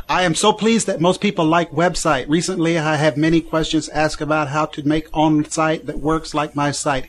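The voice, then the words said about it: Put-on Chinese accent. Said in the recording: “doing the imitation is the best ... should do the whole show in a Chinese accent.”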